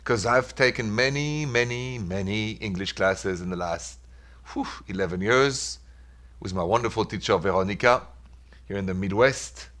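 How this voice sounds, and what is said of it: Thick French accent. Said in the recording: “my thick accent ... that's where I'm from originally ... it's my name in French”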